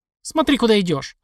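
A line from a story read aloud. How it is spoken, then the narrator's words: Barked. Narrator (Russian): рявкнул я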